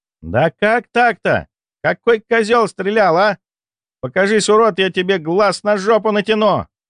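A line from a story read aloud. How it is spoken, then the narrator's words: Yelling. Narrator (Russian): Заорала выползшая шпилька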